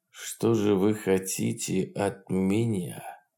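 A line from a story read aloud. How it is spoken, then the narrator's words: Quiet slow tense question. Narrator (Russian): тихо и медленно спросил Фролов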